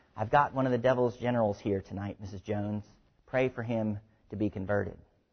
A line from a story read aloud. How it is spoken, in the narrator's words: As his Christian companion passed her pew, he whispered